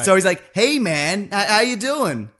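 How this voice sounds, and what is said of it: Vague American accent. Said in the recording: “That's a very good vague American accent.”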